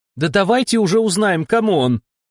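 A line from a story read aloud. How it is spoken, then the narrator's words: Shout. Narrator (Russian): крикнула Дольче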